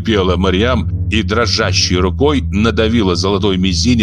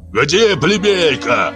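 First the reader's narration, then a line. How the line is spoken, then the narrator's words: Wild shout. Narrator (Russian): Дико выкрикнул Андукапар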